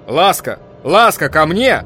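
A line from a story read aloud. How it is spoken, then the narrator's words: Shouting. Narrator (Russian): кричал Николаус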